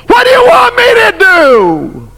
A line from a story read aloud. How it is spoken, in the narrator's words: The king yelled back